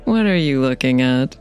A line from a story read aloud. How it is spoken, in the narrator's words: asked with a little laugh